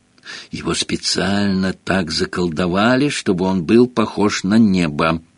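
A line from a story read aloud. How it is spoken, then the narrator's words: Whisper. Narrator (Russian): прошептала опять оказавшаяся рядом Гермиона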